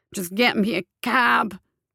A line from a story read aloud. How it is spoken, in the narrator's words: he croaked